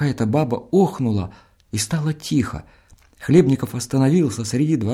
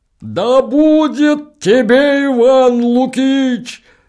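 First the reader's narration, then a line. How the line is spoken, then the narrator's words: Yelling deacon. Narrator (Russian): заорал дьякон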